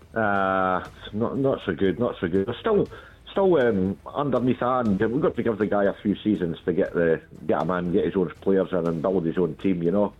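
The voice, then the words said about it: Scottish accent. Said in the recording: “I can tell by your accent that I presume you were supporting Scotland ... as a Scots person”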